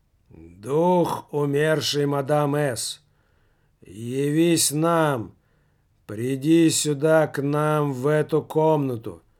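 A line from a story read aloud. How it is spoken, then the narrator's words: Low, muffled voice. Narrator (Russian): Начал он негромким, глухим голосом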